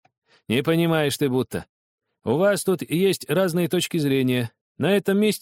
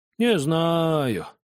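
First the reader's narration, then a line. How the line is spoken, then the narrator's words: Drawn-out. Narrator (Russian): протянул извозчик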